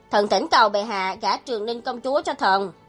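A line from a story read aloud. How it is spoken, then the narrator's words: Raised voice. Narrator (Vietnamese): Nguyên Tử Độ cao giọng nói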